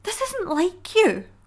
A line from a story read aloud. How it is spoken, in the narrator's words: Hope pleaded, while desperately trying to break free of her mother's grip